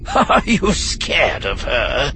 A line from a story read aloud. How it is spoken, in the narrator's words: Darth Rictus asked, ending his question with a gleeful cackle